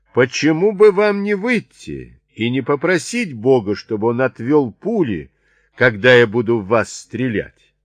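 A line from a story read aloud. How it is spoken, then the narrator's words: Defiant shout. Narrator (Russian): Он не хотел показать им свою слабость и снова закричал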